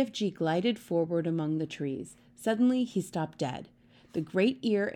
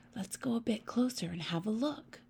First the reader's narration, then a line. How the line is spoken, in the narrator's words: Sophia whispered